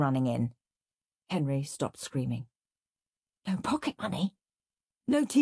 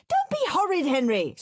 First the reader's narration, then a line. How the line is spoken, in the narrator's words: screamed Mum